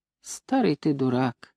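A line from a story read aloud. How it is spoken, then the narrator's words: Calm grandmother. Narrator (Russian): спокойно сказала бабушка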